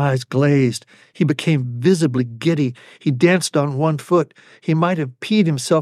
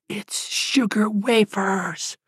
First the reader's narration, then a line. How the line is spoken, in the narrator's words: whispered a whisper